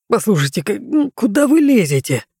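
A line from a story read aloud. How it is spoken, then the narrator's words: Grumbling. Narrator (Russian): заворчал директор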